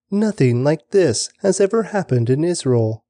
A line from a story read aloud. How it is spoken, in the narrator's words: they exclaimed